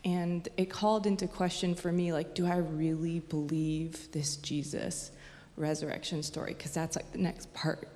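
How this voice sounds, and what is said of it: Emotional, wavering voice. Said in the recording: “getting emotional”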